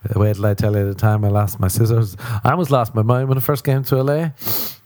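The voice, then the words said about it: Non-American accent, lilting. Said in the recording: “Thank God I have an accent... it sounds like a flute is playing sometimes”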